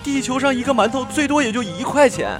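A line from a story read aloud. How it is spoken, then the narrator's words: Shouting. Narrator (Chinese): 我妈大叫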